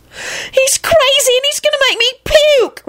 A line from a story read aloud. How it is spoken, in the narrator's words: Rosie wailed